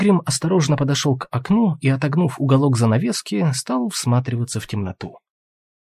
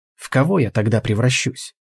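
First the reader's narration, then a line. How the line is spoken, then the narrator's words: Gloomy question. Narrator (Russian): мрачно спросил Алвис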